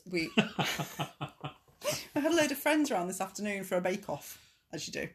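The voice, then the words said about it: Plummy telephone voice. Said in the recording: “I can't help but put my telephone voice on as soon as I start recording ... this is not my normal voice ... you do adopt a rather plummy voice when you're doing this.”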